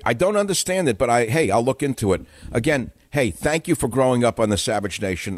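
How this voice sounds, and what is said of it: Brooklyn-like New York accent. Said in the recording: “It's called a South Market accent. You talk like you're from Brooklyn.”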